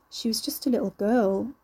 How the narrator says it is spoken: mumbled

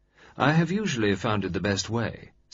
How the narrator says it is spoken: said a little grimly

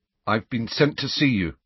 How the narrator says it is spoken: said Harry stiffly

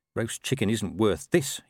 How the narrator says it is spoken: he muttered

